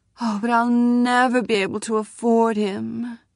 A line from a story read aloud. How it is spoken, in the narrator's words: she said, and sighed